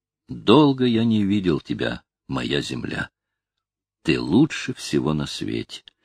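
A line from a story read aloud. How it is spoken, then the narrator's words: Barely audible. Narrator (Russian): говорит он еле слышно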